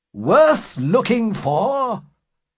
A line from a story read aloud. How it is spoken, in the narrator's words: cried the squire, with great enthusiasm